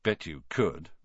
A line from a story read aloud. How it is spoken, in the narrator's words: Ron muttered